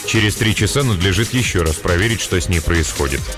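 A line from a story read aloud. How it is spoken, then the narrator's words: Perfectly calm. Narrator (Russian): сказал абсолютно спокойно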